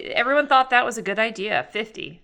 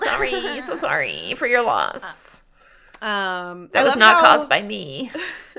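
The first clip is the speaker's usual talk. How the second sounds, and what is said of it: High-pitched vocal fry villain voice. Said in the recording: “a high-pitched vocal fry is our villain voice”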